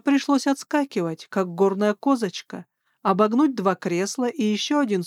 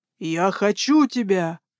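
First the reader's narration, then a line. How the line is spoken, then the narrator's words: Forceful growl. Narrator (Russian): рыкнул княжич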